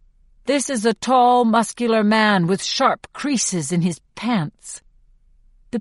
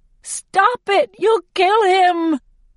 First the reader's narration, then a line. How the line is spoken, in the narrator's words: I shriek